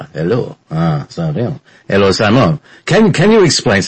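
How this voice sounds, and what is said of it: Exaggerated French-Canadian accent. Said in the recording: “My dad was French-Canadian. He had this, the worst accent in the world.”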